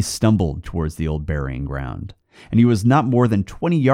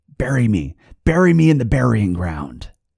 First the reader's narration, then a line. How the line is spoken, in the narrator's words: The corpse said